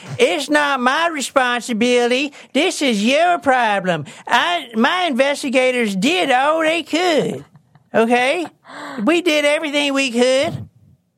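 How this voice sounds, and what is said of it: Put-on southern old man voice. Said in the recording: “What is that accent? ... is this his southern accent? Like, you pretending to be southern? ... Like his southern old man. His old man voice.”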